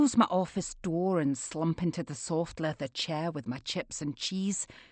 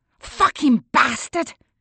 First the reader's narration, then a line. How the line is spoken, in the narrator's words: I roar